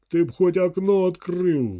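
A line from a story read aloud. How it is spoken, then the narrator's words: Roar. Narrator (Russian): взревел Петрович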